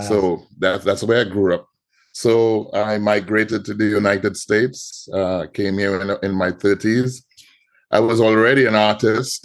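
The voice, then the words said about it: Trinidadian Caribbean accent. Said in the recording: “immediately, I'm sure everyone can hear the accent. ... So I'm from the Caribbean. ... I'm from Trinidad and Tobago.”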